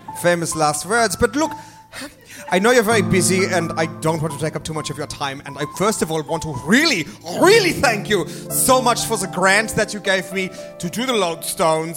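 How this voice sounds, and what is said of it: Put-on South African accent. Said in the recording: “a voice of someone he thinks is a very sexy person ... the constraints of the accent I've chosen ... Do we have any listeners in South Africa? I hope not.”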